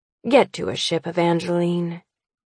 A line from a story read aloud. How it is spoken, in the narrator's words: he says slowly, his voice empty of his ability